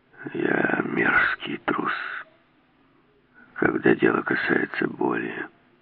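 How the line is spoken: Hoarse rasp. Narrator (Russian): прохрипел Келс

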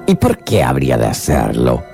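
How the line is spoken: Grumbling. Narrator (Spanish): rezongó el sombrerero

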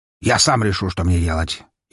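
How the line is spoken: Nearly snapping, irritated. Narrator (Russian): Едва не огрызнулся на нее барон

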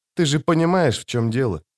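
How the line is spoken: Said quietly. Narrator (Russian): тихо сказал он

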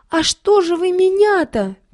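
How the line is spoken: Squeaking. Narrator (Russian): пищала Стеша, завязшая под плетнем

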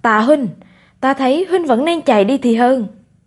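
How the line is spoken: Raised voice. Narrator (Vietnamese): cao giọng

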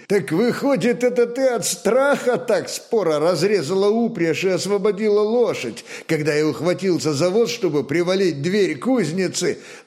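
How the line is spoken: Hearty laughter. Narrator (Russian): Наконец от души рассмеялся Сила

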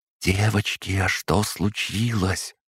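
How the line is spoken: Whisper from behind. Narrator (Russian): раздался позади меня шепот

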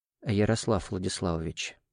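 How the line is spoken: Quiet address. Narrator (Russian): негромко обратился ко мне Кириллов

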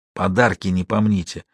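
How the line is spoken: Whisper. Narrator (Russian): Деламбро шепнул

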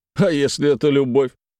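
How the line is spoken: Wry grunt. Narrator (Russian): хмыкнул Чаглинцев

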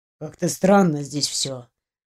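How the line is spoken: Muttering. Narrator (Russian): пробормотал Андрей

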